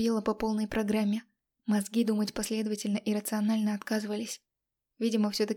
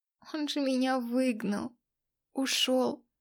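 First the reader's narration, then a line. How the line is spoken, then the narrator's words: Moaning. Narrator (Russian): простонала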